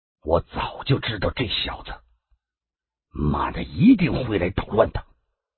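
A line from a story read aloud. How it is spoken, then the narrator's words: Grim, low voice. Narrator (Chinese): 万君武的脸色立刻沉了下去，低声的说道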